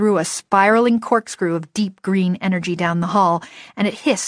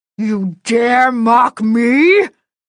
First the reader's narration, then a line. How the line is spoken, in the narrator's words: the Fomor snarled